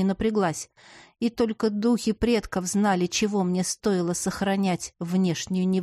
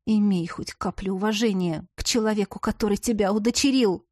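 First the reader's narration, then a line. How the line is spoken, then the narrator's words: Through clenched teeth. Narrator (Russian): процедила я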